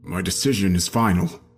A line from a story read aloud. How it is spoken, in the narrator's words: my father replied, his voice phlegmy but empathetic